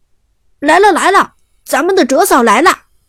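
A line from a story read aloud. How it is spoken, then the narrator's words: Excited shout. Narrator (Chinese): 马海龙就激动的喊道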